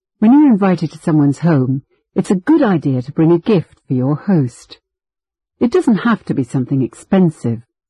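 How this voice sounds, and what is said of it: British accent. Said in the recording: “this speaker with a British accent”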